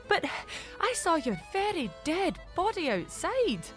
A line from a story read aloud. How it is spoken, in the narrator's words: Mary told him, gasping for breath